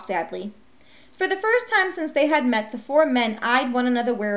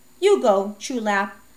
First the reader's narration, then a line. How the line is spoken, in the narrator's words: Quan Ming said firmly